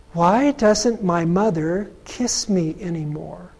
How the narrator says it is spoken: her young son whisper to a nurse

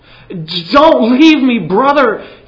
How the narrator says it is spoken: cried

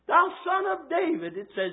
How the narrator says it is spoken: he cried out the more

